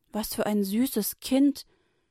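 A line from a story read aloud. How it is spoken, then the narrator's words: Woman calling out. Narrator (German): rief die Tochter des Pharaos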